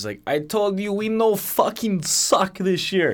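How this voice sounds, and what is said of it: Put-on Russian accent. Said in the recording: “You do a killer Russian accent. That was pretty good.”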